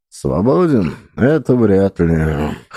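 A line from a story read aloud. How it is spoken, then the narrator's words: Skeptical snort. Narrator (Russian): хмыкнул он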